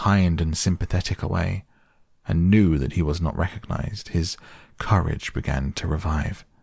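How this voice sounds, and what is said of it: Usual voice. Nothing is said of it.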